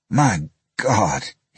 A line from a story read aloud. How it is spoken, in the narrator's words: he gasped